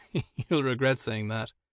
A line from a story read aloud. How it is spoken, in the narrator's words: Owen laughed and said